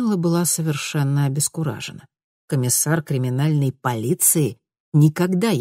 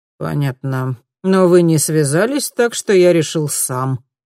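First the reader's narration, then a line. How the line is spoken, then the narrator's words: Grumbling. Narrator (Russian): проворчал он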